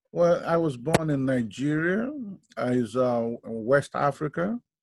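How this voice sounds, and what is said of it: Foreign, non-American accent. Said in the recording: “we can hear your accent and we can tell that you're not a Native American”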